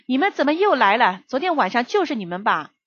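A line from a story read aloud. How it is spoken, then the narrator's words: Anxious shout from afar. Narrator (Chinese): 我丈夫……一看就急了，老远就喊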